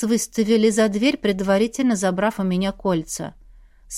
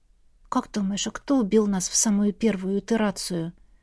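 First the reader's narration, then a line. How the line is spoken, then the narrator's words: Quiet question. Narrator (Russian): тихонько спросила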